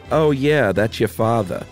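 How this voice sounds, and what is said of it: Put-on Long Island accent. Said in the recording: “I'm just trying to do my best Long Island accent. ... You did a great one.”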